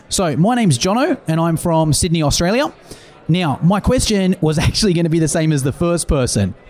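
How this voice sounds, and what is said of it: Australian accent. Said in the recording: “We have two great accents, by the way.”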